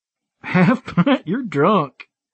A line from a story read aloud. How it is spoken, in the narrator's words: I chuckled right along with her